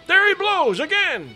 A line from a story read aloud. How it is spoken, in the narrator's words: cried the tub oarsman